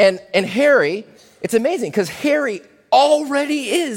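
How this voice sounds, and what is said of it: Usual voice. Nothing is said of it.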